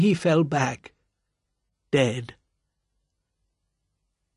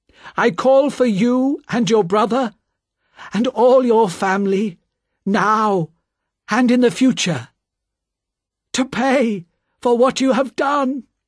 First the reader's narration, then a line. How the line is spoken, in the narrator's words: said loudly